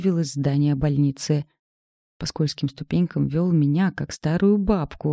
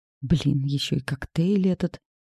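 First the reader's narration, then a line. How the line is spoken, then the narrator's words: Muttered. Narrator (Russian): пробормотала я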